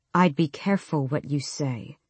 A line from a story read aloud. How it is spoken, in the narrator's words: Dorian said softly